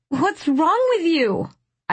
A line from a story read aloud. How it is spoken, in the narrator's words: I cried